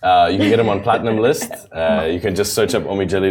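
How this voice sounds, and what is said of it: Usual voice. Nothing is said of it.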